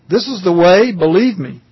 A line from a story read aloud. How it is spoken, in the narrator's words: pleads the man with his words now distinct